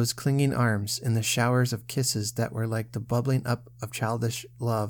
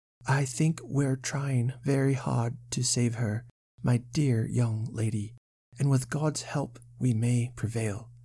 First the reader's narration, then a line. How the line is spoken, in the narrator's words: answered the doctor gravely